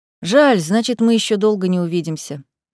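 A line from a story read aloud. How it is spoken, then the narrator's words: Sighing. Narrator (Russian): вздохнул Риант II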